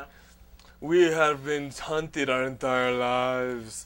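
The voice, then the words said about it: Mock vampire accent. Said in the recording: “Why does a vampire have to have a fucking accent?”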